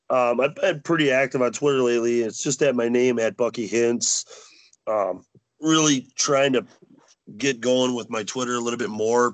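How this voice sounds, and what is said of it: Sick, rough-sounding voice. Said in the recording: “my apologies if I sound kind of shitty. I'm sick and my voice is just starting to come back”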